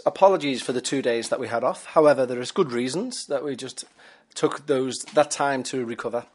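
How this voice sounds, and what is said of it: Tired-sounding voice. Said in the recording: “You may be able to tell by my voice that I'm a little bit tired.”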